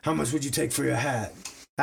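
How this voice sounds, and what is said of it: Imitates another person's voice. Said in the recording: “terrible Patrick Mahomes impression ... it wasn't bad”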